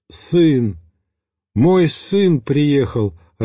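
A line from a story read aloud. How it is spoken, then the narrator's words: Joyful repeating. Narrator (Russian): радостно повторял он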